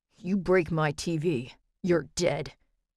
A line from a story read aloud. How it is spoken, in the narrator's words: Graham snarled